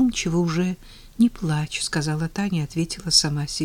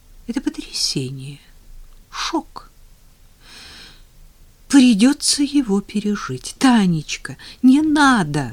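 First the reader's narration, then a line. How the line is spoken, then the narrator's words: Pleading. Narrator (Russian): снова взмолился Женя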